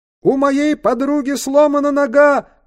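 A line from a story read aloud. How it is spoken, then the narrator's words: Shouted. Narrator (Russian): крикнул Тристран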